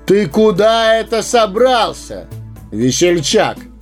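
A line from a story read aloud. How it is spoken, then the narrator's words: Thunderous shout. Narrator (Russian): громовым голосом вскричал странник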